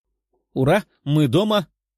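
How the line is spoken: Joyful shout. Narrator (Russian): выкрикнула Лиза

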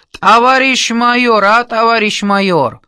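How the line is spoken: Shout, strong Georgian accent. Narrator (Russian): Он кричал с резким грузинским акцентом

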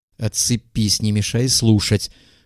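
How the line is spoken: Attempted snap. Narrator (Russian): попробовал огрызнуться Егоров

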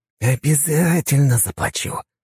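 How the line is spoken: Hissing. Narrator (Russian): прошипел наш преподаватель

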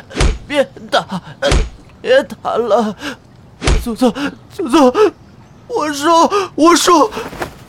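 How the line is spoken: Sobbing, beaten, bloodied mouth. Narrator (Chinese): 内患被打得口中渗血，呜呜咽咽地哭道

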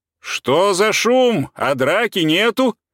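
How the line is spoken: Shouting. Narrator (Russian): крикнул капитан Николаевич с постели

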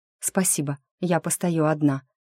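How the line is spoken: Quiet. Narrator (Russian): тихо сказала

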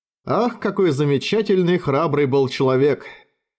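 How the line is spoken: Sighing. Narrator (Russian): Вздохнул Лифаэн

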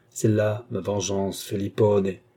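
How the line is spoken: Muffled low voice. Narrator (French): dit l'intendant d'une voix sourde

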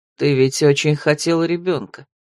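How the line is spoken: Gentle male reminder. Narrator (Russian): мягко напомнил мужчина

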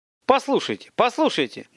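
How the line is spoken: Sudden, very agitated man. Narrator (Russian): Внезапно и чрезвычайно взволнованно заговорил худощавый человек

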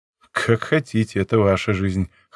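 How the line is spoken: Dry snort. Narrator (Russian): хмыкнул я

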